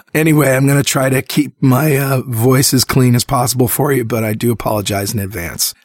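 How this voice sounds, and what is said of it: Congested voice from a cold. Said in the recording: “the sound of my voice is screwed up because I'm sick. Got a cold.”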